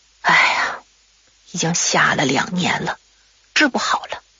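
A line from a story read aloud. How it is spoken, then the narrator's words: Sighing. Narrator (Chinese): 马奶奶常常叹一口气说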